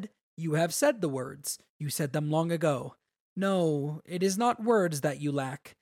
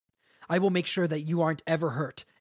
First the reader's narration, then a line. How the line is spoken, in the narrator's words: Adolin said fiercely